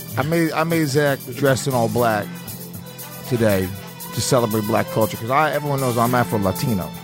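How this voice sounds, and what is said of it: Fake put-on Black accent. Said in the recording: “this fake black accent. I'm not good at any accents.”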